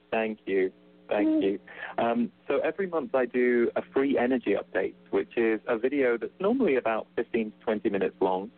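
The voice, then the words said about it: Slight non-American accent. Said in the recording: “you've got a bit of an accent for those who are in the U.S.”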